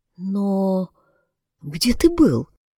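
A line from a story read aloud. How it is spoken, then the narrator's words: Quiet, disbelieving. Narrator (Russian): тихо произнесла она, не доверяя ни одному из своих пяти чувств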